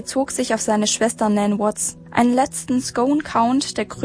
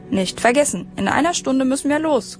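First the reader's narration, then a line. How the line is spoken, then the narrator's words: Calling over shoulder. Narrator (German): rief er noch über die Schulter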